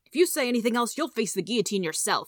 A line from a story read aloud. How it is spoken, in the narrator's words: snapped